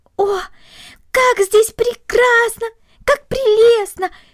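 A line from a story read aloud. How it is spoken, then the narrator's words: Delighted exclamation. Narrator (Russian): воскликнула Корнели, полное восхищение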